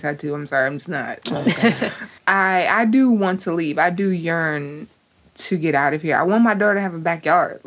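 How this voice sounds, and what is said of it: Brooklyn accent. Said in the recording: “Brooklyn is my home. Like, it's what made me me. It's created my accent.”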